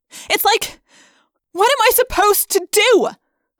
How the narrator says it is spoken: I yelled

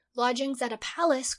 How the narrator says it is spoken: cried

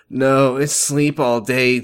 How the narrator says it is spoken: I groaned

